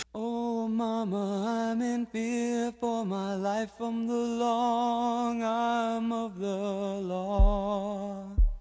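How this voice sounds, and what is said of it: Singing with a voice crack. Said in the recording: “I got my voice cracked there ... Like your voice didn't just crack.”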